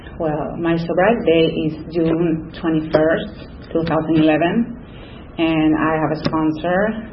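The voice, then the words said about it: Spanish-speaker's accent in English. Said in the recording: “I have an accent, as you can say. ... I was born and raised in Lima, Peru, so I speak Spanish, too, a little English, just a little.”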